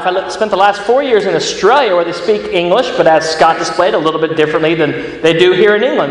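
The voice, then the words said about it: American accent. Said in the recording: “That's an American accent that comes out of my mouth.”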